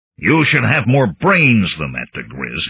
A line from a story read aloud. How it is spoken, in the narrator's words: he snarled